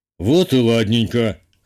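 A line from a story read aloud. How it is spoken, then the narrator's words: Skeptical snort. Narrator (Russian): хмыкнул Петр Иванович, явно дочери не поверив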